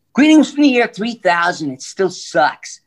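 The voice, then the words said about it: Cartoon character voice. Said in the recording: “Futurama, I did a bunch of voices.”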